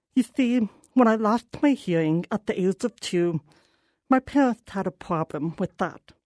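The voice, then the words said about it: Deaf speaker's accent. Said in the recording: “I'm deaf, and this accent should make it clear that I have enough trouble with the English language”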